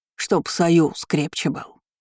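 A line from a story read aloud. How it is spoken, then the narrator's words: Grumbling old woman. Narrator (Russian): проворчала баб Вера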